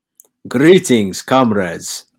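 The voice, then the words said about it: Put-on Russian accent. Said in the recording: “I just got a Russian accent out of nowhere”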